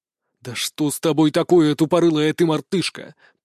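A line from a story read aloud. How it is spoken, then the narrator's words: Growled. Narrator (Russian): прорычал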